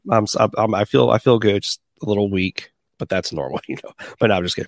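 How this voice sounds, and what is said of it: Rough, sick-sounding voice. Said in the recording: “I just tested positive today for COVID ... that's why I sound a little rough”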